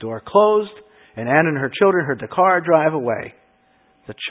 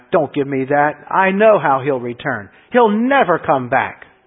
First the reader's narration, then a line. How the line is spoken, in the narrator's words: Anna snapped